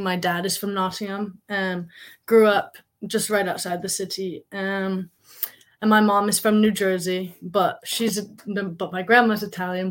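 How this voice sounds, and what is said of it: Mixed American-English accent. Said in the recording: “I am half American, half English, which is why my voice is like this. People usually think I'm Welsh or Dutch ... I've gotten South African a lot as well”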